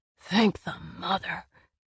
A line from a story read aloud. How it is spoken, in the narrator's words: swore